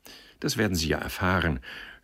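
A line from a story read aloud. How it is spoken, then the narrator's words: Stammering, forced smile. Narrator (German): stotterte er und versuchte zu lächeln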